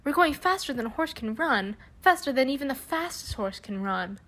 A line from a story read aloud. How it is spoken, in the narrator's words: Lars called out